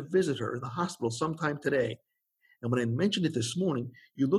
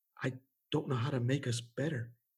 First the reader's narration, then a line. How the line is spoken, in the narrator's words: he whispered in her ear